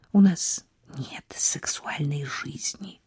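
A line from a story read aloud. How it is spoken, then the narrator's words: Whisper. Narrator (Russian): прошептала она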